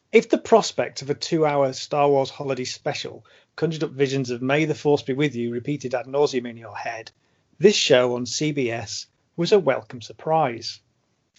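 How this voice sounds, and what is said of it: Formal school assembly reading voice. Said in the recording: “in my best school assembly voice.”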